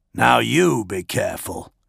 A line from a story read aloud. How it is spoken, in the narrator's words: Dolor growled